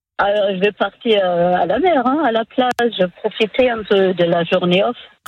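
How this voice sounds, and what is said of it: Slight foreign accent. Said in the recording (French): “vous avez un petit accent? ... Oui, j'ai un accent.”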